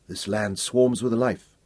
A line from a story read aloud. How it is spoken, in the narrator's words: he murmured to Sakina